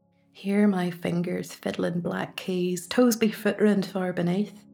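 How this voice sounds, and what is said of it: Northern Irish Ballymena accent. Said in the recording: “my Ballymena accent”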